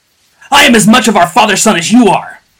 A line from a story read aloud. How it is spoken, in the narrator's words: bellowed Joja between blows